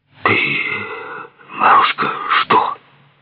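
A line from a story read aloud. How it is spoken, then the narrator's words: Whisper. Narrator (Russian): прошептал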